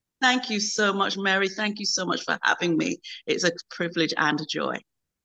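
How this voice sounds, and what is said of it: Speaks with a noticeable accent. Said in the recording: “You've not only got a beautiful accent”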